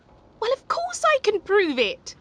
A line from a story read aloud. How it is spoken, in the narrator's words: cried Lunchbox joyfully